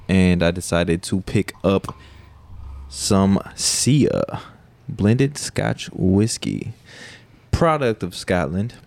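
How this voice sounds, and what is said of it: Poorly done put-on accent. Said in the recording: “That was a terrible accent”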